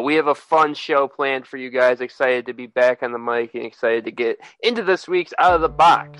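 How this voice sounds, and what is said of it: Congested, stuffy, sniffly voice. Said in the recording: “my allergies are going crazy right now. So I'm sorry if you can hear it in my voice or if you hear me sniffling”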